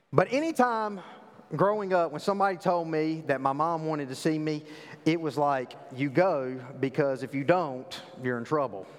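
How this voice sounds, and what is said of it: Southern American accent. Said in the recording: “I grew up in the South. I know you can't tell that with my, you know, my eloquent accent”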